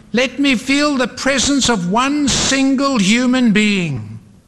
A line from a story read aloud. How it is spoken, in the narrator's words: yelled